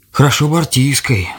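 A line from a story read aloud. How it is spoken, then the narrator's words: Old man's sigh. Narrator (Russian): вздохнул дед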